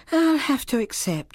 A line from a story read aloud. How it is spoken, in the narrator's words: she said with a sigh